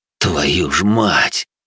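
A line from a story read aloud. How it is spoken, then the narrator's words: Exhale with smirk. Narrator (Russian): выдохнул, усмехнулся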